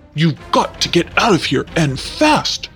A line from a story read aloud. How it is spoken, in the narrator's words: gasped Pimperel